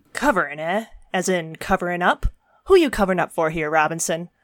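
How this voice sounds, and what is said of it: Hardboiled noir detective voice. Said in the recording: “stereotyped noir detective voice gag ... goofy voices”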